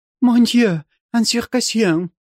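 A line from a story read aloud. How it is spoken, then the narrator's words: Terrified cry. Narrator (Russian): вскрикнула княжна в ужасе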